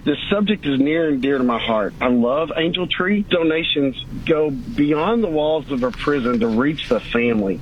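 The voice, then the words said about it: Choked-up, emotional voice. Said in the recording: “I'm getting a little choked up here”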